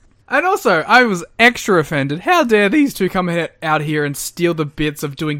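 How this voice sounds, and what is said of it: Usual voice. Nothing is said of it.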